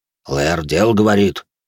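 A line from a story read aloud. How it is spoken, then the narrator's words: Gloomy grumble from behind. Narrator (Russian): хмуро буркнул за спиной Грон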